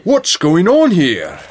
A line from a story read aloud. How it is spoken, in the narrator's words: Grandpa Jake called out